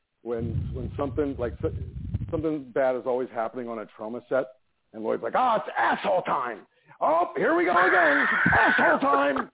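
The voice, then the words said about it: Impression of Lloyd Kaufman. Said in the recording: “excellent impersonation of Lloyd Kaufman”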